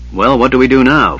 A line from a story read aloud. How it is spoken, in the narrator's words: Flint grumbled